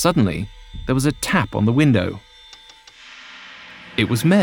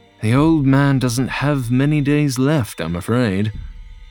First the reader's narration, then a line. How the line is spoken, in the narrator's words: John sighed and admitted